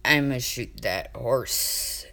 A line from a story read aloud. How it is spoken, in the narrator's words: he mumbled authoritatively, burying his face in his arm